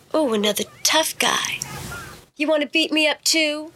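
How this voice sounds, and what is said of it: Baby voice, taunting tone. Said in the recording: “baby voice, salty, taunting attitude”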